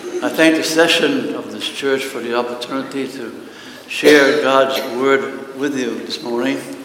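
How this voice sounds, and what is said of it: Massachusetts accent. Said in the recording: “I come from Massachusetts, so as I preach this morning, you will notice an accent”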